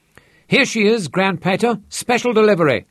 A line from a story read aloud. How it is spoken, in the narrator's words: Shasta grinned